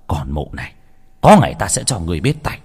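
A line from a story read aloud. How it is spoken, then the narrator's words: Muttered. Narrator (Vietnamese): Ông ta lẩm bẩm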